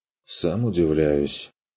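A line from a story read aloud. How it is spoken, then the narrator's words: Displeased muttering. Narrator (Russian): пробормотал Курт недовольно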